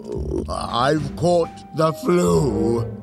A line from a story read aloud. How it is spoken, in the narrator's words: the lion roared